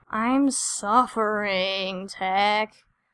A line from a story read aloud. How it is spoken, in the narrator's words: Wanton said, making the words into an exaggerated groan